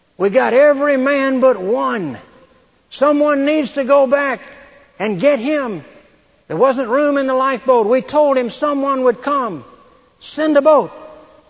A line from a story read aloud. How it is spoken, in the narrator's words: shouted and they said